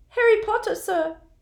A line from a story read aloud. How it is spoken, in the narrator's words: squeaked the elf, trembling from head to foot